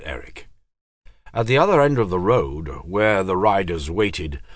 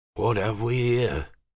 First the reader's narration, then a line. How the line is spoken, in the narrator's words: asked Harper softly